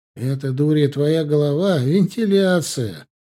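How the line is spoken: Speech through laughter. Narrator (Russian): сквозь смех сказал Стасик

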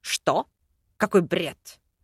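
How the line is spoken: Snorting. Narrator (Russian): Фыркнул

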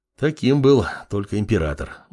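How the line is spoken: Sigh. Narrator (Russian): вздохнул азиат

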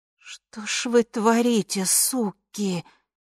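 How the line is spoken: Hissing. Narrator (Russian): шипела Ви

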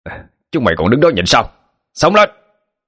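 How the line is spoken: Crowd roaring together. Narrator (Vietnamese): đám mười mấy thanh niên đồng loạt gào lớn

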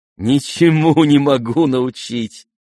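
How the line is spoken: Laughing. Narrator (Russian): смеялся и князь

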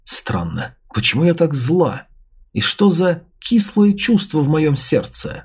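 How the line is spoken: Muttering. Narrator (Russian): пробормотала

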